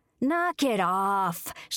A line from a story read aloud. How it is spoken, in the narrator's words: she hollered